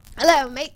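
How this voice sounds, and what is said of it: Put-on British accent. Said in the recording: “I'm British, suddenly ... the British awesome. Accent”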